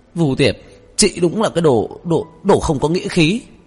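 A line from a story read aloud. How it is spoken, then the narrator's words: Furious yell. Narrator (Vietnamese): tức tối hét lên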